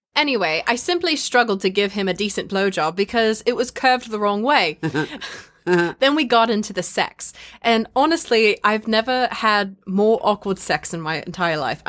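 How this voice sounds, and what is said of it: Put-on English accent. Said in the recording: “I'm not doing the English accent anymore.”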